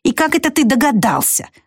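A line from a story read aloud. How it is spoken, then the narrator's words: Angry snap. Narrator (Russian): зло огрызнулась женщина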